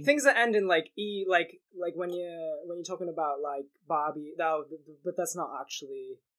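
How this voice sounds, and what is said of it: London accent drifting into Australian. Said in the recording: “my accent is kind of drifting into Australian, which isn't great”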